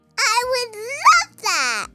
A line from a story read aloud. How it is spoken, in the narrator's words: yelled Maya